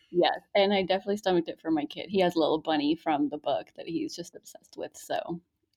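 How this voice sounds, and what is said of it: Usual voice. Nothing is said of it.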